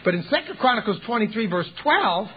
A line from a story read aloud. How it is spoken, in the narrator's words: Manasseh snaps